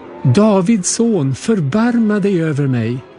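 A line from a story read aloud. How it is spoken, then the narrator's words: Shouting even louder. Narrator (Swedish): ropade bara ännu mer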